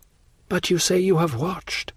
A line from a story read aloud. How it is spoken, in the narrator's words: said Valentine uneasily